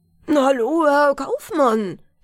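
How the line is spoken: Shout. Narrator (German): schrie

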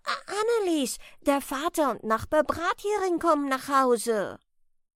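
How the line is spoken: Calling out. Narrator (German): ruft er

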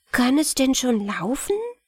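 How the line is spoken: Giggling whisper. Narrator (German): lachten die Mägde laut, flüsterten miteinander

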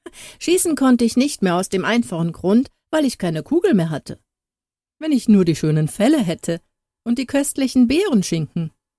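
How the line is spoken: Laughing reply. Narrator (German): Harald erwiderte lachend

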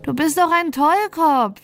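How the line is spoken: Bird calling from above. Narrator (German): rief der Falke aus der Luft herab

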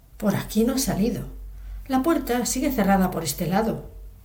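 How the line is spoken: Prompt exclamation. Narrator (Spanish): No tardó en exclamar

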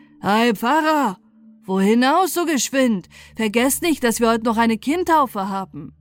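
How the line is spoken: Surprised call. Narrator (German): verwunderte er sich und rief

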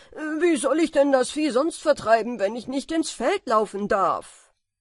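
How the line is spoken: Calling out. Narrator (German): rief er

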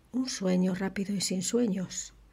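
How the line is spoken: Murmured. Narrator (Spanish): murmuró

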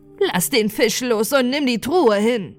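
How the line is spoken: Called out. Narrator (German): rief

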